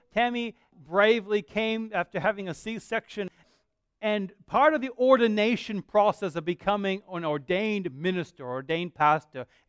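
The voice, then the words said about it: Mixed Australian-American accent. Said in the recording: “I actually am Australian. I just don't, I'm just confused in my accent.”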